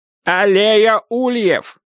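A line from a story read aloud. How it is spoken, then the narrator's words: Shouting into phone. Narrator (Russian): кричал Дек в трубку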